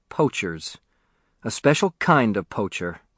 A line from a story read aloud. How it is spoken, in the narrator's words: said Leon